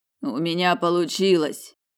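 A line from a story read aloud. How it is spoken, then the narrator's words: Hoarse wheeze. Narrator (Russian): прохрипел блондин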